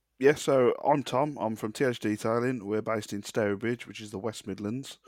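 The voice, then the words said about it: West Midlands English accent. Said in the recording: “As you can tell by the accent, it's just south of Birmingham”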